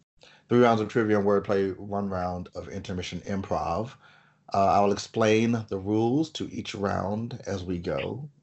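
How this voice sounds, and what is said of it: Voice sounds affected by a cold. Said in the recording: “apologize for my voice. I have a little bit of a cold.”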